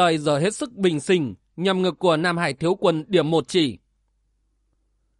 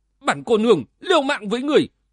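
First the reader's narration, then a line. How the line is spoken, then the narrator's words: Shout through gritted teeth. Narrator (Vietnamese): Uyển Nhi nghiến răng quát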